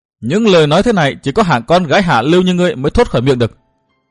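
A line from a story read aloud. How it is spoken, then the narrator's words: Roaring shout. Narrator (Vietnamese): Cốc Trung Phụng gầm hét nói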